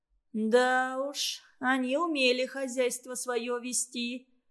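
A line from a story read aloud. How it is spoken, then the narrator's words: Sighing. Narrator (Russian): вздохнула Калерия Гавриловна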